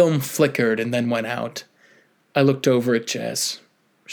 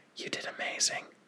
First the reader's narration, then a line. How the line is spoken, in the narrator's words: whispered